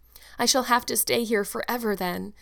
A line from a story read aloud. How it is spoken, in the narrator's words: said Anne mournfully